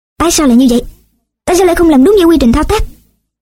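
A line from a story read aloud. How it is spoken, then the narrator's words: Angry questioning. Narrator (Vietnamese): Giáo sư tức giận hỏi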